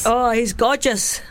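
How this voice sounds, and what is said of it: Poor put-on Scottish accent. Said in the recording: “that was a really poor Scottish accent.”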